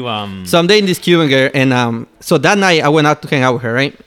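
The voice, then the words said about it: Noticeable accent. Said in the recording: “I'm sorry for my accent”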